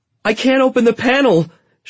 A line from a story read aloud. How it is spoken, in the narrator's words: she shrieked